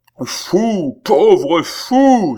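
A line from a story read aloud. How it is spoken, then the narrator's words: Exclaiming. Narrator (French): s'écria Altotas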